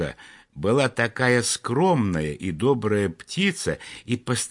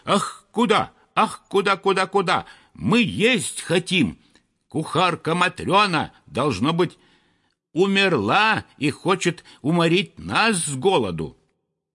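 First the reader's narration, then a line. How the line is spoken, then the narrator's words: Frantic shouting. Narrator (Russian): неистово кричали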